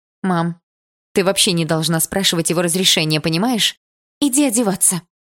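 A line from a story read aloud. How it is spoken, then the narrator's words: Abrupt, brisk. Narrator (Russian): Резко изменила тему мама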